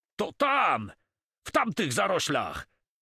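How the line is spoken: Shout. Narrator (Polish): krzyknął Cormon

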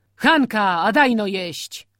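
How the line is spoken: Shouting through window. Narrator (Polish): krzyknął w otwarte okno

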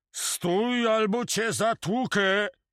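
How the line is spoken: Shouted. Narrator (Polish): krzyknął

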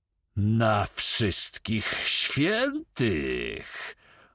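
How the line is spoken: Menacing growl. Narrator (Polish): warknął Drągal, przyjmując groźny wyraz twarzy

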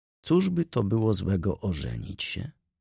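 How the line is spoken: Said in an undertone. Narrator (Polish): rzekł półgłosem

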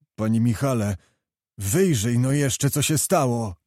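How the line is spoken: Pleading. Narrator (Polish): błagał Zagłoba

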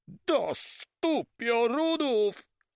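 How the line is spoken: Startled exclamation, near miss. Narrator (Polish): wykrzyknął Van Stiller, którego o mały włos nie przygniótł wielki konar

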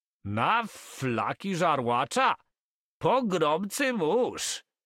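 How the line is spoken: Shouted. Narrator (Polish): krzyknął Carman

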